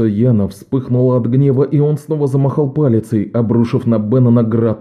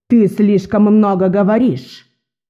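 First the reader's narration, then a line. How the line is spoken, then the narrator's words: Shout. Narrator (Russian): выкрикнула Одесса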